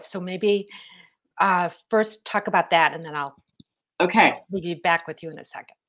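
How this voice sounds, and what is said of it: Hoarse, failing voice. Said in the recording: “I just got a frog in my throat... I think I'm losing my voice.”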